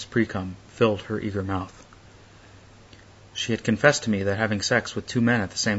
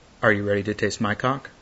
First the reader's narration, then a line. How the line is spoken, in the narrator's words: I asked Daniel in a smooth, confident tone